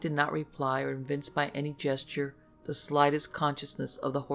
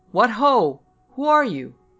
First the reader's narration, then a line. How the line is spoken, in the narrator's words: The horseman called out